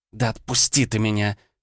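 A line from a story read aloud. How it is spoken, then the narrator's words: Hiss. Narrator (Russian): зашипела Ванда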